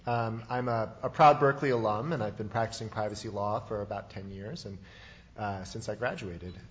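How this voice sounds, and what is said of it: Voice affected by a cold. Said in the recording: “Forgive my voice, a little bit of a cold today.”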